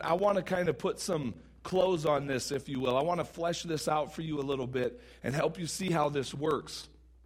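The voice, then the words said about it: Strained, sore voice. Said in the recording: “my voice is killing me”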